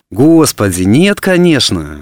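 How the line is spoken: Exclaiming. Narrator (Russian): воскликнула она

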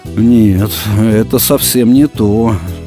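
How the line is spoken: Said sadly. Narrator (Russian): грустно сказал Пятайкин

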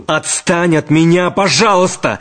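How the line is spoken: Angry shout. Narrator (Russian): не на шутку сердясь, крикнул Шервинский

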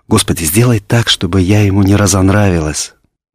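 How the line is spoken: Hurried whisper. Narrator (Russian): И она торопливо зашептала

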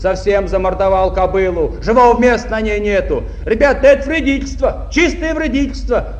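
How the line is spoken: Heated young man's shout. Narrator (Russian): запальчиво закричал кто-то из молодых шахтеров-комсомольцев

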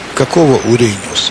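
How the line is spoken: Plain. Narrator (Russian): спросил я

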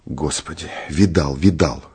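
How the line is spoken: Whisper. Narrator (Russian): шепнул Турбин

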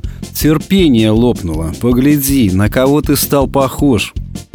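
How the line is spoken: Sad reply. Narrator (Russian): Печально ответил тот, кто был в зеркале

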